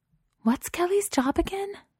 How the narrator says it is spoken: Safi whispered to Chelsea

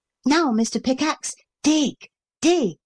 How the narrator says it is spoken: he cried

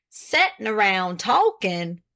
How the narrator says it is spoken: exclaimed Mr

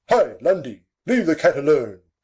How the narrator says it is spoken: moved his grandpapa the Duke to utter the severe rebuke

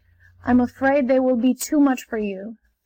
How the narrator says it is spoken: said the man sadly

